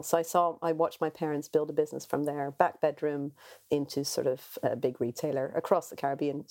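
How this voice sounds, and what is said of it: Caribbean accent. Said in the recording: “I grew up in the Caribbean, which is my sort of weird accent”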